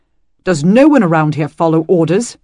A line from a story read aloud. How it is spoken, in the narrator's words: Dylan snapped